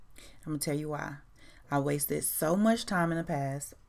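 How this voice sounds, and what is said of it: Voice cracking. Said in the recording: “hear my voice cracking.”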